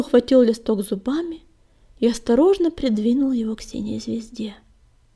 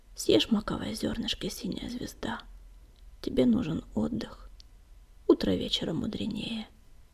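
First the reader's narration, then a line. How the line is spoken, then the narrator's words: Whisper. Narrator (Russian): Огнегрив прошептал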